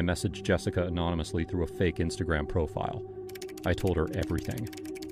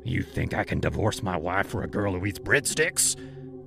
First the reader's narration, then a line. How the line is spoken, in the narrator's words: he growled